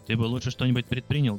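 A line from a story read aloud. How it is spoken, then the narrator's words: Plain. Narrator (Russian): говорит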